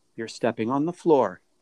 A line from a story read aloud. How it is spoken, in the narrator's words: Miss Moore said quietly